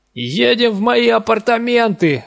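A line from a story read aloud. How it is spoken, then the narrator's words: Yelling. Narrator (Russian): орал я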